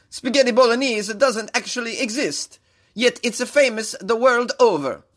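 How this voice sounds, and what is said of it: Imitated Italian-accented voice. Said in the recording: “That was my impression of Bologna Mayor Virginio Merola ... sexy-ass Italian accent”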